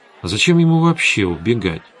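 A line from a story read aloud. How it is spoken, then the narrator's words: Thoughtful. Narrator (Russian): задумчиво сказала Светлана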